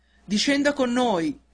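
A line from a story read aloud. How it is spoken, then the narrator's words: Shouting from below. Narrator (Italian): gridarono di sotto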